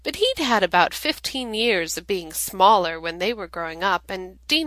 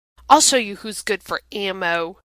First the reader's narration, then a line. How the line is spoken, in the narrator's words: Dean snarls